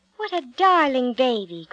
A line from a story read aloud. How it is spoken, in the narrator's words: cried the princess